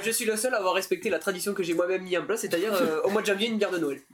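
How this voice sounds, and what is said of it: Recognizable regional accent. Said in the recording (French): “On t'avait reconnu à l'accent”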